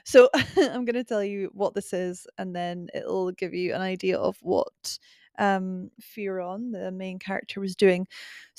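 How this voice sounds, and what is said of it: Scottish accent. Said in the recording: “my accent probably isn't translating great when I say boiler scaler. So unless I go really Scottish”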